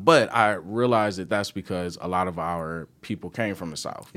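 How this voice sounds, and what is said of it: Country Southern-tinged American accent. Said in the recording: “hear it in my voice, but I am country ... I got a country accent”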